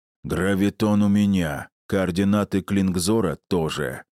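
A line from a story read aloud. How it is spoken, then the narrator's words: Booming drone. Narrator (Russian): прогудел Гундахар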